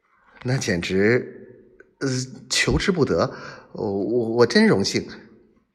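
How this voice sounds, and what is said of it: Trembling, stammering voice. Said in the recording (Chinese): “我我用颤抖的声音说”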